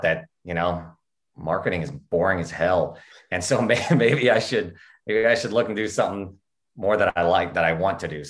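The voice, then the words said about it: Oklahoma Southern American accent. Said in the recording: “you've an accent that I'm trying to place, and the only way I can place it is to say it's vaguely similar to like how Matthew McConaughey talks ... I am from Oklahoma ... We say things like y'all. The accent comes out a little bit as we start, especially as we start talking faster.”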